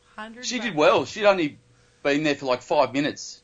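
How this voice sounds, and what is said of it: Australian accent. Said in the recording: “Are you from Australia? ... I am from Australia. ... Did you pick up the accent?”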